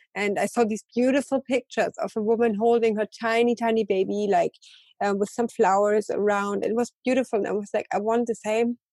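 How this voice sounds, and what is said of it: Emotional, tearful voice. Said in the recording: “oh my God, I'm getting emotional”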